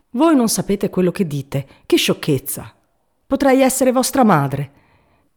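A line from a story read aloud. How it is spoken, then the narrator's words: Sudden quick scornful exclamation. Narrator (Italian): d'un tratto, rapida e sprezzante, esclamò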